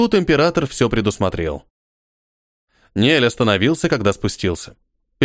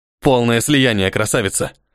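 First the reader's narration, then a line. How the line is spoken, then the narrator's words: Growled. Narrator (Russian): Прорычал он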